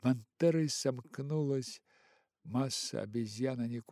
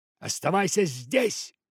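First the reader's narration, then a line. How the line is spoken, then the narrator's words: Monkeys shouting. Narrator (Russian): закричали ему обезьяны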